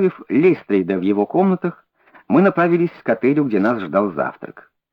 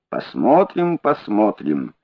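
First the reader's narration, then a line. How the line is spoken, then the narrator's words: Calm reply. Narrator (Russian): ответил спокойно Холмс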